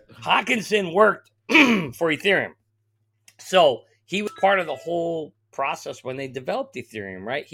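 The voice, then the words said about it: Strained, hoarse voice. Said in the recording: “I'm losing my voice.”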